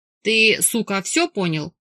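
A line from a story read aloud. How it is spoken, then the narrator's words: Roaring, growling. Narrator (Russian): взревел Марк и прорычал в его перекошенную рожу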